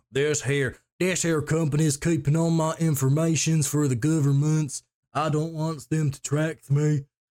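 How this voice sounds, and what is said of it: Put-on Southern drawl. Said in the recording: “that was my impression of a southern drawl”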